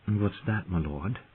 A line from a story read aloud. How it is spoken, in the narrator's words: Shay murmured against him